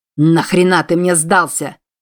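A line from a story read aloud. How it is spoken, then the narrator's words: Barking in face. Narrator (Russian): рявкнул Чарльз в лицо янки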